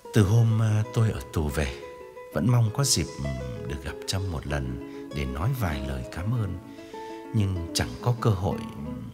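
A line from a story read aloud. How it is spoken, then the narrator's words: Low, earnest voice. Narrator (Vietnamese): Chàng hạ giọng tha thiết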